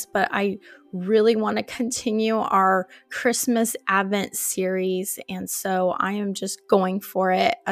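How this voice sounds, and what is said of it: Hoarse, strained sick-sounding voice. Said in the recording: “I came down with an awful cold and it is disturbing my vocal cords ... apologize for my voice to sound like this ... this new sound tone in my voice”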